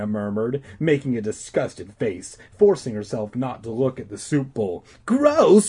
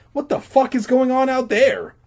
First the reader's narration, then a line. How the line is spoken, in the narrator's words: He cried